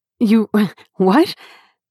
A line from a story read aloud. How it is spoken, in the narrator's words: Joy sputtered